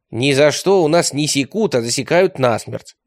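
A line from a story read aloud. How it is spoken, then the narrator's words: Plain. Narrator (Russian): сказал Радищев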